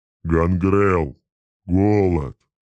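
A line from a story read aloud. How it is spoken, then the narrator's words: Roar. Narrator (Russian): проревел Кугат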